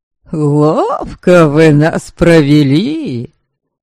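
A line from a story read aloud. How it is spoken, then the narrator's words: Old man laughing. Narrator (Russian): смеялся дед Путеня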